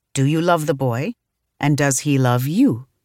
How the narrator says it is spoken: her mother asked her calmly

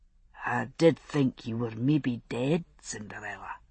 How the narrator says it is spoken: he said softly, head bent to hide his face

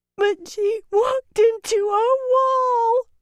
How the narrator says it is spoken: Corita wailed

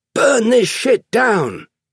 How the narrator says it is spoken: they shouted

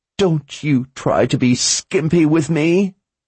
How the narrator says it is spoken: Lady Ordith screeched

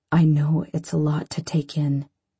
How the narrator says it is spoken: he says quietly

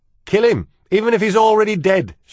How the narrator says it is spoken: shouted Cook

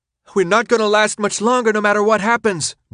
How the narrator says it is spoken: Brenda shouted

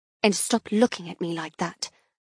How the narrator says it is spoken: I mumble

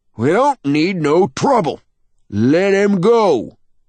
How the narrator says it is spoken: shouts the old man

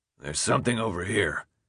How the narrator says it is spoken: Alec muttered, his voice strained

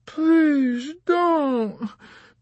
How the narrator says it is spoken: begged the drunken lady

